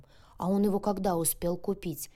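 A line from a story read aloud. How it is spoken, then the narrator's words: Puzzled, hoarse sleepy voice. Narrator (Russian): недоуменно спросила сиплым ото сна голосом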